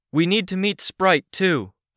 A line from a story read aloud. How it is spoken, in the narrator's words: called out